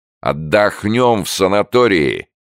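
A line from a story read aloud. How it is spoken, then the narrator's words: Barked. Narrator (Russian): рявкнул он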